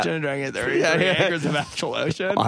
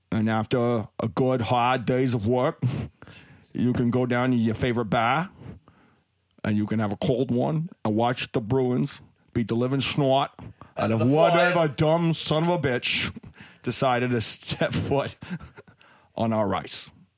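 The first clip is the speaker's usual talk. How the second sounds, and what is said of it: Put-on Boston accent. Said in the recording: “I just liked it for the Boston accent. That was great.”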